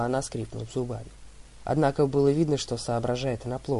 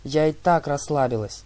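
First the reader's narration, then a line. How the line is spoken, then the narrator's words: Snapped. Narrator (Russian): огрызнулась Талия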